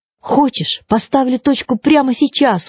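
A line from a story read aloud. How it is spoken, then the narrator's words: Exclaimed. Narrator (Russian): воскликнула она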